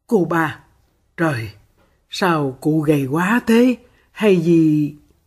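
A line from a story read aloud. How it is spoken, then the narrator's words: Soft sigh. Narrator (Vietnamese): Phượng Kiều khẽ thở dài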